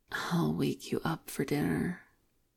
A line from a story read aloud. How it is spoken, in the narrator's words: David whispers